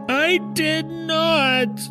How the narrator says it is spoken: Brent shouted, still crying

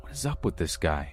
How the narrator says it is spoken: Ash hissed

